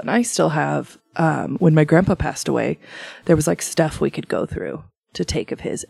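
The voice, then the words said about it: Quiet, hushed speaking voice. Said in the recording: “I'm being a little quieter ... So I'm using my NPR voice”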